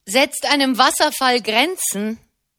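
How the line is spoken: Heated shout. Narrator (German): rief einer der Brüder hitzig

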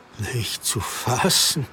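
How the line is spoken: Murmuring. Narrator (German): murmelte Petrus

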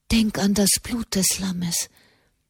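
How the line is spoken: Whispered in ear. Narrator (German): flüsterte Katharina dem Knaben ins Ohr

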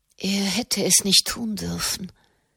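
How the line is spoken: Murmured. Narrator (German): murmelte sie

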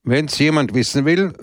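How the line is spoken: Loud speech. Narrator (German): sagte er laut

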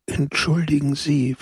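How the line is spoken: Whisper. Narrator (German): flüsterte er

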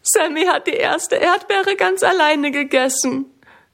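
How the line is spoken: Sobbing. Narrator (German): schluchzt Minna

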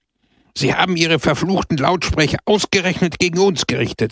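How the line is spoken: Exclaimed. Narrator (German): rief er aus

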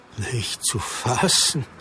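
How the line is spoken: Murmured. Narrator (German): murmelte Petrus

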